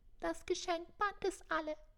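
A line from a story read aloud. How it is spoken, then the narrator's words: Thin squeaky voice. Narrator (German): Die Elfe ängstlich piepste mit dünnem Stimmchen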